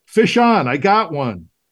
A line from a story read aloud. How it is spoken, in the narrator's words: triumphantly, shouting